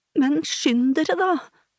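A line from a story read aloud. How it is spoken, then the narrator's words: Exclaimed. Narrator (Norwegian): utbrøt Marte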